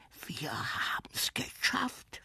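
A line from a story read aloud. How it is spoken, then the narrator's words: Whispered. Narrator (German): flüsterte Klaus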